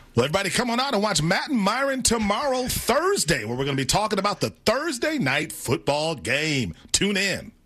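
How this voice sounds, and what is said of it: Talk show host voice. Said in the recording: “his talk show host ... he is doing a voice ... that's a different voice”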